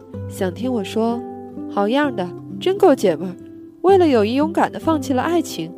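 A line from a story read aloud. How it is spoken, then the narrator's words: Gentle smiling question. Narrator (Chinese): 我居然露出了一个微笑，很温柔地问他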